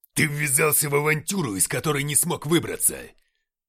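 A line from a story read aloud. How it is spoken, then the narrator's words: Barked, father. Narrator (Russian): рявкнул отец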